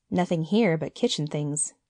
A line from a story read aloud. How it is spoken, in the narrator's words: he said with a little laugh for the insignificance of kitchen things